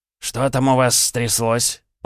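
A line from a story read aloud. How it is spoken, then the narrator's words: Grumbling. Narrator (Russian): пробурчал Архаров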